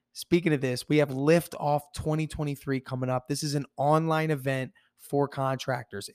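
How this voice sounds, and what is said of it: Hoarse, strained voice. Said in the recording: “excuse my voice, I lost my voice.”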